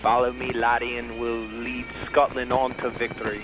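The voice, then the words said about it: Fairly good put-on Scottish accent. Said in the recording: “Lay a Scottish accent on us ... That's not bad. ... That was pretty good.”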